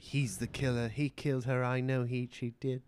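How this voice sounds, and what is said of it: Imitates a film character's voice. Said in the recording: “great Eloise impression”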